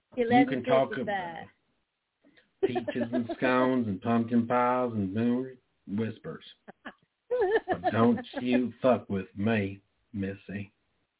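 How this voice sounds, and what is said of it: Put-on Southern American accent. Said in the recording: “I was practicing a southern accent ... You have to kind of dip it a little bit, play with the pitch, bring it back down.”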